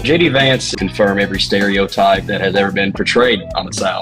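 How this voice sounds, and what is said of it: Southern US accent. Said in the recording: “I'm from the South, and they hear my accent”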